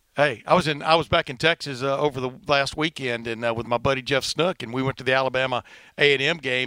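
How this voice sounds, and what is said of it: Fast speech, slight Southern twang. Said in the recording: “people referring to my accent ... fast and a little bit of a southern, twang”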